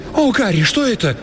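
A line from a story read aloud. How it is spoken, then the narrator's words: Shrill squeal. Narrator (Russian): взвизгнула Лил Мэкинс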